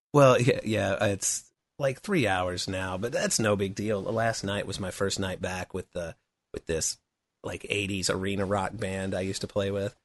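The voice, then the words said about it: Hoarse, worn-out voice. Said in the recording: “my voice is beat up”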